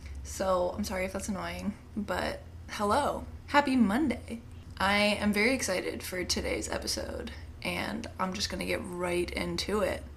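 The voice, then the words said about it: Slightly raspy, recovering voice. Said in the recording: “lost my voice like 5 days ago and it's still a little bit raspy”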